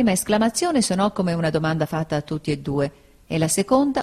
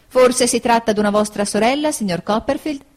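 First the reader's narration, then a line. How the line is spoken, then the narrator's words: Exclaiming after a pause. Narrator (Italian): esclamò dopo una pausa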